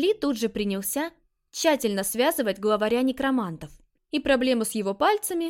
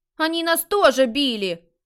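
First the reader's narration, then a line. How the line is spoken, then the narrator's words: Indignant group exclamations. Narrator (Russian): Возмущенно начали восклицать ученики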